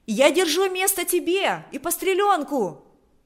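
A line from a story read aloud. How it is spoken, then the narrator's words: Shout. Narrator (Russian): кричала она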